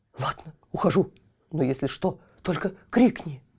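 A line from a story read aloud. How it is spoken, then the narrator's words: Whispering in ear. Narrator (Russian): Кот опять зашептал на ухо Тильтилю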